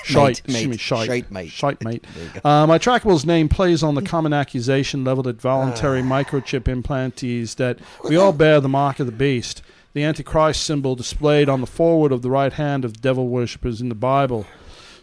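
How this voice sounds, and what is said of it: Poor put-on Australian accent. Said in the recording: “I'm going to read it as him because, you know, this is from Australia, New Zealand, somewhere over there ... your accent's shit, man.”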